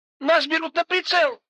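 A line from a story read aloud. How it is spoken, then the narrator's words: Shrill squeal. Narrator (Russian): взвизгнула Ника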